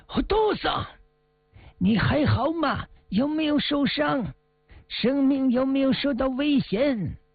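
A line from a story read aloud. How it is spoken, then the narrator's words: Urgent shout. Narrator (Chinese): 小毛利紧忙大喊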